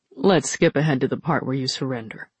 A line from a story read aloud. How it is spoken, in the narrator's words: said Alton